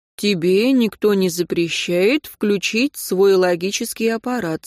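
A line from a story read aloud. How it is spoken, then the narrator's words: Plain. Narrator (Russian): сказал он сыну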